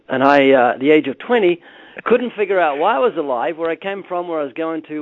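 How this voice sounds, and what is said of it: Slight New Zealand accent. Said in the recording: “I was born twice in New Zealand. Notice the slight accents”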